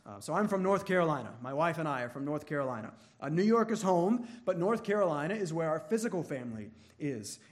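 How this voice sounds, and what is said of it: Faint Southern US accent. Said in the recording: “I try to hide my accent ... I try to hide my Southern accent”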